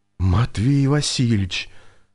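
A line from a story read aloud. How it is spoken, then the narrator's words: Surprised exhale. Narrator (Russian): выдохнул Виктор удивленно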